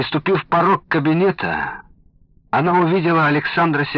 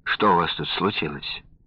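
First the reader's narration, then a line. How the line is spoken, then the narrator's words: Calm question. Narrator (Russian): спокойно спросила жена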